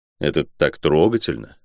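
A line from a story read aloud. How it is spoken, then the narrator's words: Muttering. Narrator (Russian): пробормотал я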